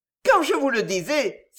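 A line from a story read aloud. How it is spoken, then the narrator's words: Woman exclaiming. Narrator (French): s'écria la bonne femme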